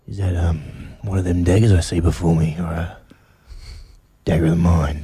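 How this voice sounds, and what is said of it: Whispery low Sam Worthington impression. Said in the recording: “do you get into the whispery acting? ... Give us your Sam Worthington and Macbeth again ... Drop your voice like that.”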